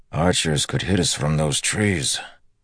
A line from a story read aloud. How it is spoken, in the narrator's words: said with a grunt